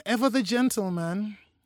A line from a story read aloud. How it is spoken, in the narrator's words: she sighed